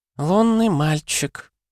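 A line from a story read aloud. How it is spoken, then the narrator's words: Creaky, hoarse female voice. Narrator (Russian): проскрипела она хриплым голосом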